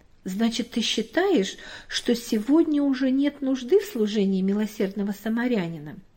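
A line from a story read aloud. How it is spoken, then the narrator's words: Plain. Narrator (Russian): спросила мама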